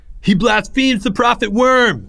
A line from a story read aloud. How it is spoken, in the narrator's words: screamed one of the temple slaves, a young pugnacious worshiper by the name of Jake